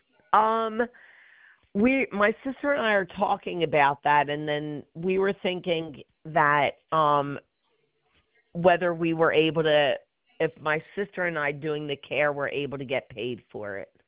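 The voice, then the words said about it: Voice sounds like a bad cold. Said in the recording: “I have a bad cold.”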